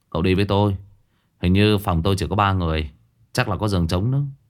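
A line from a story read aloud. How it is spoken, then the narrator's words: Sighing. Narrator (Vietnamese): Vương Đại Long thở dài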